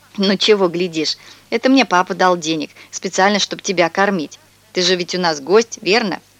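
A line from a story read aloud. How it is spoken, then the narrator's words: Laughing. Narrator (Russian): Он засмеялся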